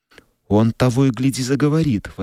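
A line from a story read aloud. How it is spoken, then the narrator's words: Exclamation. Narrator (Russian): воскликнула Бет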